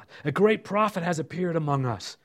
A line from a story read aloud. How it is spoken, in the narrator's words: said